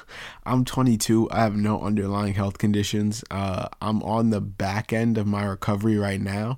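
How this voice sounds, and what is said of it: Raspy voice. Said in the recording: “you can probably tell, I'm still not 100%. My voice is pretty raspy.”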